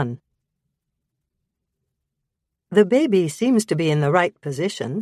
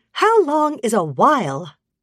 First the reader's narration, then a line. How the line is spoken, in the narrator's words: Jocelyn Robinson asked crossly